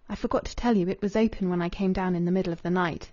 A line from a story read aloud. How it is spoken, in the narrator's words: Rachel murmured